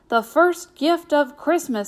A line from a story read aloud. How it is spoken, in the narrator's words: Santa cried